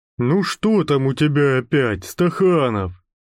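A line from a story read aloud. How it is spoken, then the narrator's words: Grumbling. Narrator (Russian): проворчал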